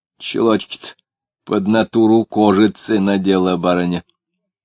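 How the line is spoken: Fairly loud. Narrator (Russian): сказал довольно громко

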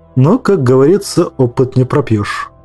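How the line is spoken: Plain. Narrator (Russian): ответила Снап

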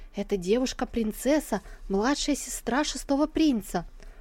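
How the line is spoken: Whispering in ear. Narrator (Russian): прошептав ей на ухо

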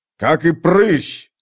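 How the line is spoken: Shouted. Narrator (Russian): крикнул

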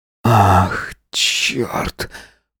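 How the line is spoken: Hoarse croak. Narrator (Russian): прохрипел Макс

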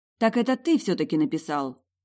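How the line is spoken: Relieved exclamation. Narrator (Russian): воскликнула с облегчением

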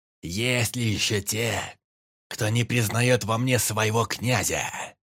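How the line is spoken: Menacing shout. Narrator (Russian): грозно крикнул он

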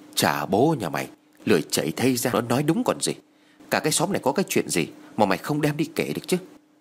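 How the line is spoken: Whisper. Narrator (Vietnamese): Bà Hoài thì thầm nói

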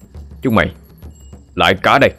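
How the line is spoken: Shouted. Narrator (Vietnamese): quý quát lên

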